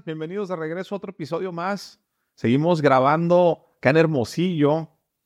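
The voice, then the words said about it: Announcer-style broadcast voice. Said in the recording (Spanish): “tienes toda la voz de locutor”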